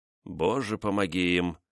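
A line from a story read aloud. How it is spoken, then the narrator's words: Muttered. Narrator (Russian): пробормотал Людовик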